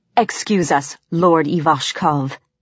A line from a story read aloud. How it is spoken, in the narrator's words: she growled